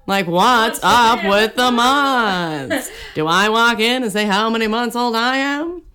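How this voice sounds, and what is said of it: Imitates another person's voice. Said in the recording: “my Seinfeld impression was pretty ... good. Very good.”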